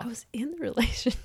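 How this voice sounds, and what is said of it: Whispering. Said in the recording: “you're whispering all of a sudden. Why are you whispering?”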